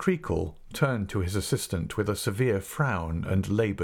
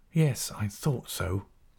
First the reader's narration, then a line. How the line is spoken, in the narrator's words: Mell said to himself in a whisper